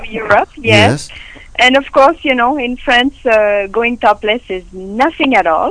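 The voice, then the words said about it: French accent. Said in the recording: “my accent probably gives me away. I'm from France.”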